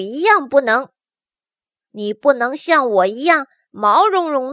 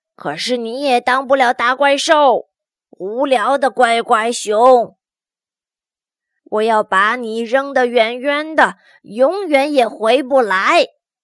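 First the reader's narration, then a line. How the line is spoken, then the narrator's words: Monster's roar. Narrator (Chinese): 大怪兽咆哮着说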